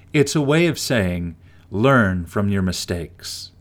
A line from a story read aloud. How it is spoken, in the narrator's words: Grandma said